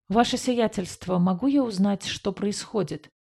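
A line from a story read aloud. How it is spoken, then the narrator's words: Quiet puzzled question. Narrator (Russian): тихо спросил авиакранц, с недоумением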